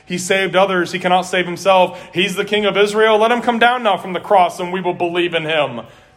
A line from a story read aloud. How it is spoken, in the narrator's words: the chief priests also, along with the scribes and elders, were mocking him, saying